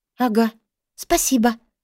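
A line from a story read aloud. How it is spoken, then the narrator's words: Muttering. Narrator (Russian): пробормотала я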